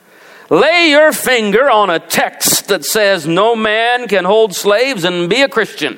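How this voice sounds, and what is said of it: Put-on Southern accent. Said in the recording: “you got to do it with a southern accent”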